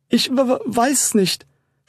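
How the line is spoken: Unsure stammering. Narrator (German): stammelte sie mit unsicherer Stimme

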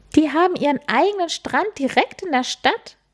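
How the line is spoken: Calling out. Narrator (German): rief sie

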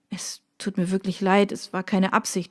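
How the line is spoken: Stammering apology. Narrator (German): stammelte er

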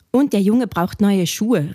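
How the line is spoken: Old lady calling out. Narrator (German): rief eine alte Dame

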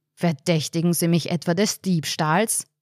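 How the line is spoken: Thundering loud voice. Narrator (German): donnerte der Bestatter

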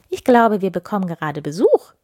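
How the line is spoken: Calling into another room. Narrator (German): rief sie in die gute Stube

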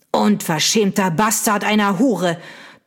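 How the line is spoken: Thundering nobleman. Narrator (German): donnerte der Earl

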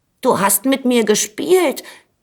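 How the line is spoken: Calling out. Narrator (German): rief da der Schwelberich

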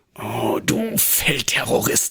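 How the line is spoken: Groaning murmur. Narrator (German): murmelte sie stöhnend

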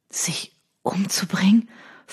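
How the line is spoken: Stunned whisper. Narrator (German): flüsterte er fassungslos

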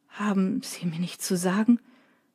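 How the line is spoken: Choked question. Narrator (German): fragt Drake mit erstickter Stimme

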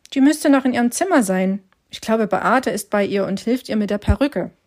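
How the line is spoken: Plain. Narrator (German): antwortete Hannes

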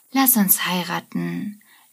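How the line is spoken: Slurred drunken speech. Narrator (German): lallt sie

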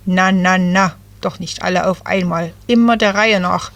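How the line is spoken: Croaking. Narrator (German): krächzte Jay

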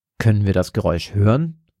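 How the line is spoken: Toneless question. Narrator (German): fragt sie tonlos

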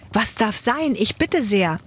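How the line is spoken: Startled call. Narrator (German): ruft Ladislaus erschrocken

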